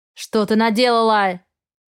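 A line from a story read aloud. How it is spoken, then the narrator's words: Barking. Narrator (Russian): рявкнул он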